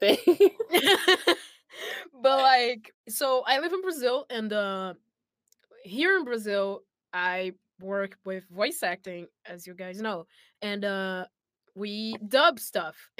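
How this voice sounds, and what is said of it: Brazilian-accented English. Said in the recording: “I live in Brazil for anyone who doesn't know that from by my accent”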